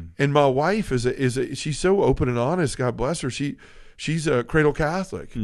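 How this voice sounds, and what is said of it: Usual voice. Nothing is said of it.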